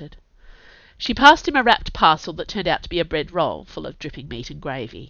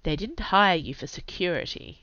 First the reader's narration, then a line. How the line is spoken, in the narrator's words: Inga said dryly